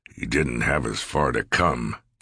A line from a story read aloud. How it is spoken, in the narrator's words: Sears grumbled